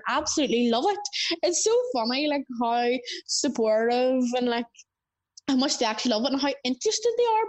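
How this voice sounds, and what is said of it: Northern Irish accent. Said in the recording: “my accent ... here in Northern Ireland, I think we all hear it. Like, we all like, oh my gosh, do we actually sound like that? ... we probably do sound incredibly different”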